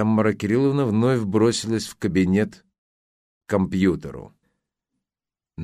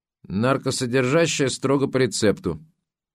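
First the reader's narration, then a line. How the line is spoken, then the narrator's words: Frowning grumble. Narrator (Russian): нахмурилась, буркнула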